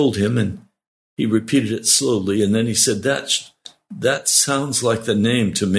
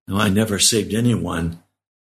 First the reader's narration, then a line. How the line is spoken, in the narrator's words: replied